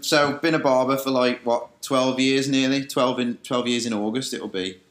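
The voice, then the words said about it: West Midlands Dudley accent. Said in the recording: “obviously, am not from Liverpool originally, as you can tell by my accent, which isn't as bad as it used to be. But, I'm originally from Dudley in the West Midlands”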